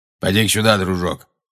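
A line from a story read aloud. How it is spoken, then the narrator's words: Grumbling. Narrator (Russian): проворчал Грюм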